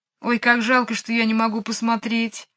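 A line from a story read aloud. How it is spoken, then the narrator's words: Sad. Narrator (Russian): грустно сказала Джейн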